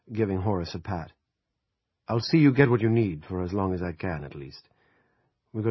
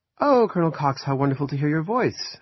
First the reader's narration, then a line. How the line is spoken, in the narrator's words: she said brightly